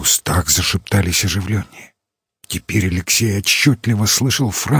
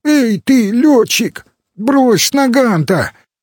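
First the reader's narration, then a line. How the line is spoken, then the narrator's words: Shout. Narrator (Russian): крикнули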